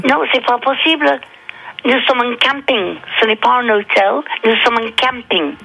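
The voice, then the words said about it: Southern French accent. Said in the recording (French): “vous avez un accent du sud”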